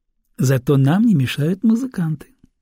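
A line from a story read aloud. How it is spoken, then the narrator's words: Laughing. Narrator (Russian): рассмеялась женщина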